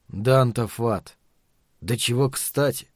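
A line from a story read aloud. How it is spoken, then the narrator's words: Sighing. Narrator (Russian): вздохнул Каттерсон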